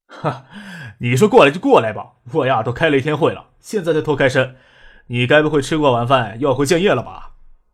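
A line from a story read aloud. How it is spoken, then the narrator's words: Hearty laugh. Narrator (Chinese): 叶剑兵哈哈一笑，对张克说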